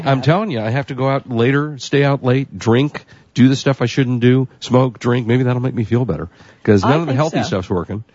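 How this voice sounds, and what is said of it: Sick-sounding, congested voice. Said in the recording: “I was sick for about 7 weeks, couldn't get rid of my hacking cough ... Now I have a cold again.”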